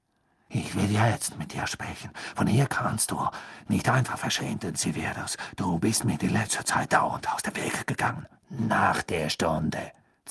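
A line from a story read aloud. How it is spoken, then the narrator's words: Hissing. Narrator (German): zischte Snape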